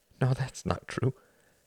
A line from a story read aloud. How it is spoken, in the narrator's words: he said, his voice breaking